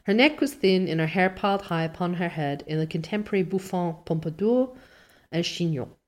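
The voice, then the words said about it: Poor put-on French accent. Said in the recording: “This me doing French accent is really bad.”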